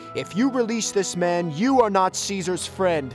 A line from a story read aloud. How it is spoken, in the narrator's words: Someone stepped forward and shouted